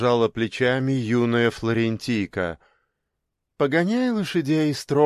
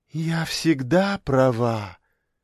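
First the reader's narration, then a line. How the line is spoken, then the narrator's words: Condescending sigh. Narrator (Russian): снисходительно вздохнула она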